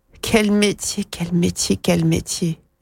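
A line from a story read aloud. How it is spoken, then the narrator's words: Moaning. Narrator (French): gémit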